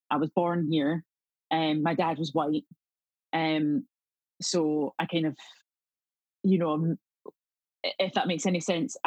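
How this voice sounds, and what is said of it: Scottish accent. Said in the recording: “I have a Scottish accent.”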